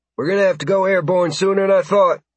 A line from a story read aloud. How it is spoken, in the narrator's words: Carson said, her voice muffled by her helmet